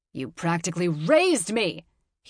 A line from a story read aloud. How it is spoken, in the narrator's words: he roared